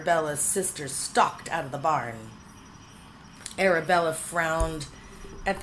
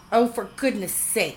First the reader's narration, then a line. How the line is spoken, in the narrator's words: she snapped